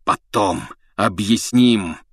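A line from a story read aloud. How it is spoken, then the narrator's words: Hoarse. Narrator (Russian): хрипел Блэк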